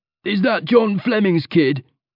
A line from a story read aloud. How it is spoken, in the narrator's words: he yelled